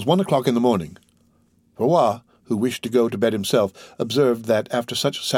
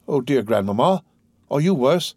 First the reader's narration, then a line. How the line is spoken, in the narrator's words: exclaimed Valentine, perceiving all these signs of agitation